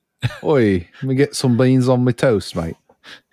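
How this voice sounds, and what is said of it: Exaggerated put-on British accent. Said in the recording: “the most British thing I've ever heard. You should call up Dick Van Dyke ... your accent's impeccable. I mean, just truly impeccable.”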